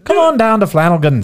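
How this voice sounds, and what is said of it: Put-on Irish accent. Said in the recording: “Can you do an Irish accent? ... I've already done an Irish accent.”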